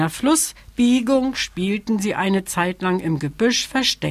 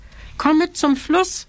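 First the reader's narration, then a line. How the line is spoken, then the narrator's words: Calling out. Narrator (German): rief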